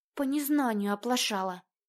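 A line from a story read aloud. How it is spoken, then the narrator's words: Very quiet. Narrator (Russian): добавила она совсем тихо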